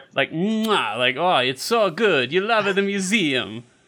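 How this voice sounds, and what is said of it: Borat-style put-on accent. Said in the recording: “Are you fucking Borat or something? What the fuck is that accent?”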